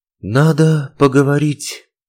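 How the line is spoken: Breathed out. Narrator (Russian): выдохнула

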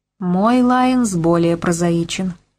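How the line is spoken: Plain, woman. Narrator (Russian): сказала женщина

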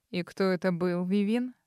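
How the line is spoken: Icy tone. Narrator (Russian): Ледяным тоном поинтересовался Арман

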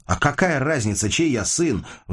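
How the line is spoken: Sudden spluttering shout. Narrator (Russian): вдруг закричал Костя, разбрасывая слюну изо рта

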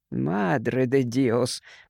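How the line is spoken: Muttering. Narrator (Russian): пробормотал Гарсия

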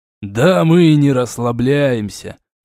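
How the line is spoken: After laughing. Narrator (Russian): отсмеявшись, сказал Дорн

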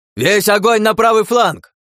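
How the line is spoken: Deafening yell. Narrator (Russian): Заорал я так, что у самого едва не заложило уши

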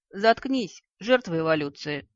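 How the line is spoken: Barked in unison. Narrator (Russian): на удивление единодушно рявкнули полушария

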